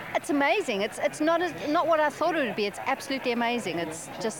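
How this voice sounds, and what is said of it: South African accent. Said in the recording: “I love the South African accent.”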